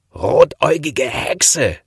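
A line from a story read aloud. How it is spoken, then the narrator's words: Scream. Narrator (German): schrie er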